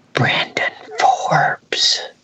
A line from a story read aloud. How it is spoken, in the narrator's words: the whisper came